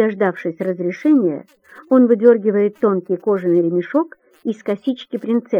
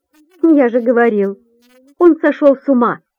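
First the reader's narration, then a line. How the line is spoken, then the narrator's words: Giggling young prince. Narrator (Russian): хихикает юный принц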